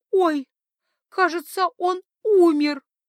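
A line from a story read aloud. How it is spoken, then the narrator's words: Upset sob. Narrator (Russian): огорченно всхлипнула принцесса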